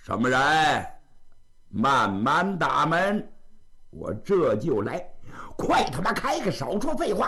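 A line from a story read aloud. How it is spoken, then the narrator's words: Loud shout. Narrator (Chinese): 高声喊喝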